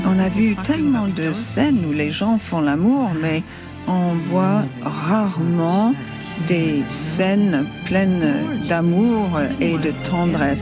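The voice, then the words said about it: French with a charming English accent. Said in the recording (French): “la traductrice qui a un ravissant accent anglais, qui donne comme ça, on a l'impression que c'est Meryl Streep”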